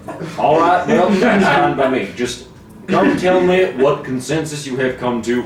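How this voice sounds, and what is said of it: Performed character voice. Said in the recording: “That was a good impression.”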